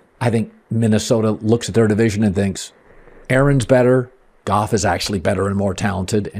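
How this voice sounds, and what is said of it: Low, smooth podcast voice. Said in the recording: “He really talks you in with that low voice. ... podcast voice than he does radio voice.”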